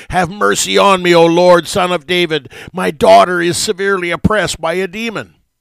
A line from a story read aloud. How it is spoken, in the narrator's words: she cried out loudly after him, even from a distance